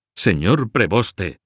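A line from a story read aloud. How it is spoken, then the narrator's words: Shouting. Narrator (Spanish): gritaba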